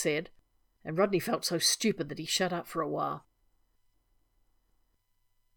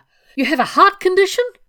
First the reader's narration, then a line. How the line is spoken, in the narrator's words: he yelped